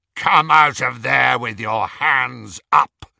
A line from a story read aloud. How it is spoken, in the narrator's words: came a rasping voice through the darkness